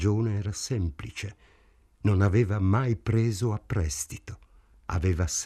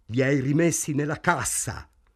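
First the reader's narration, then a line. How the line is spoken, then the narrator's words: Shouting. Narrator (Italian): gridò Morris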